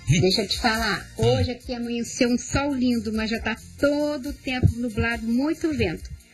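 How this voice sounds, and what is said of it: Carioca Brazilian Portuguese accent. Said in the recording (Portuguese): “Eu gosto muito do sotaque cariocas”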